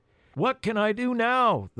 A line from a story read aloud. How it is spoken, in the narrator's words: the boy tried to shout above the noise